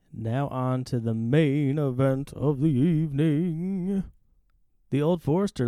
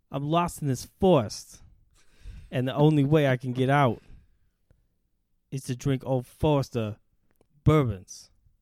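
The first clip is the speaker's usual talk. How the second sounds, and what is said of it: Imitates another person's voice. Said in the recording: “that was an impression of Christopher Walken”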